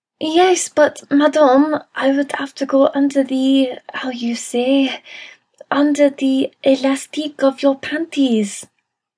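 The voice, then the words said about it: Adorable put-on foreign accent. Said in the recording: “That accent was so adorable.”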